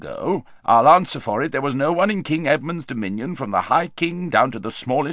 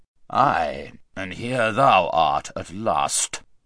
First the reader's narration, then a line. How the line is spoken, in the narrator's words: said the king in a very gruff voice